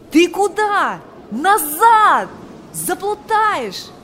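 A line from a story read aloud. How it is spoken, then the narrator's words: Shouting. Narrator (Russian): кричал он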